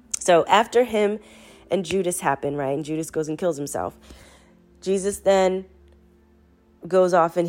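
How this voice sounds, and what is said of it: Sick-sounding voice, talking fast. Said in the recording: “y'all can hear I'm sick ... I'm talking so fast”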